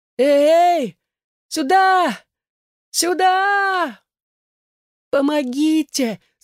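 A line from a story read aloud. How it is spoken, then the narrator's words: Cracked, muffled shout. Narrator (Russian): закричала следом Элаза, но звонкий ее голосок звучал теперь надтреснуто глухо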